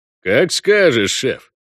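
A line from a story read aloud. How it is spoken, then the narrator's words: Wry grunt. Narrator (Russian): хмыкнул Вольво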